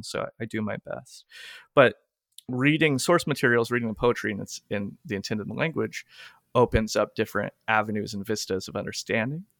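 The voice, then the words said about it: Old-timey Southern American accent. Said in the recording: “I speak with her old timey accent ... a Southern accent”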